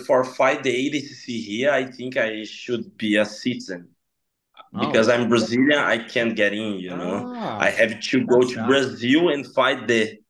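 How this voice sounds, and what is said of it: Non-native English accent. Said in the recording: “your English was perfect... your accent, especially. We love the accent.”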